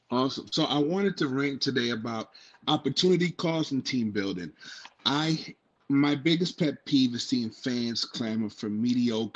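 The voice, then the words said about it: Noticeable accent. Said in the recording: “You could not cover your accent to save your life.”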